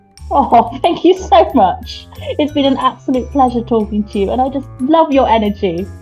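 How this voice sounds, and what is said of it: French accent. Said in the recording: “I love your accent so much. France is”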